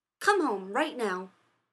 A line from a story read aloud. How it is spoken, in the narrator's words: Rodney snapped